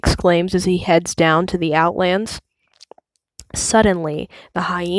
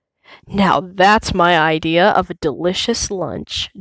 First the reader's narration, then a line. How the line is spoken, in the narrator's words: Jonja growls